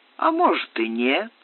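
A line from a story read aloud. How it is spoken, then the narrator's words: Laughing. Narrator (Russian): смеясь сказал Измаил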